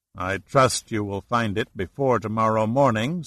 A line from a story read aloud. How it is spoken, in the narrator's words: Saracen said dryly